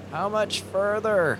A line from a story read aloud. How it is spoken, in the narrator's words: He yelled